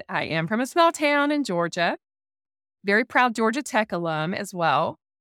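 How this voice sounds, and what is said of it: Southern US accent. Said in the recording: “You probably hear a southern accent.”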